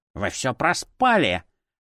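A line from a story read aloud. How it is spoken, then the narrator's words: Irritated barking. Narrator (Russian): Раздраженно рявкнул за спиной куклы профессор Плёсинг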